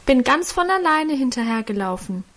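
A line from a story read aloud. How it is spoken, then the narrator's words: Calling out protectively. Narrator (German): rief da Guste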